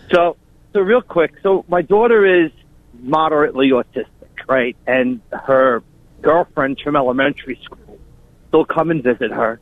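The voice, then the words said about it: Long Island accent. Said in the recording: “We recognize that Long Island accent. ... Immediately? ... Right off.”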